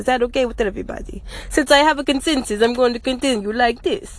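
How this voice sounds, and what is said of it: Put-on accent. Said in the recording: “I wanted to make a podcast today in this accent, so I'm going to talk like this for the rest of the episode”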